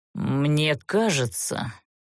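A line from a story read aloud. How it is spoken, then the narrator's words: Quiet grumble to himself. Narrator (Russian): словно для себя тихо проворчал Занбер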